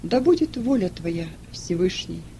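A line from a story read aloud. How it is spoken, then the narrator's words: Sad. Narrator (Russian): Нумидий грустно посмотрел на Маркелиану и сказал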